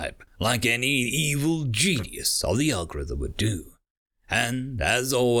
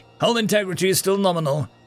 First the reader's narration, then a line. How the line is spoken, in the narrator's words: her DCC officer called out